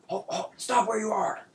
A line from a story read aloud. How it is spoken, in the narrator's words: you hear a voice shout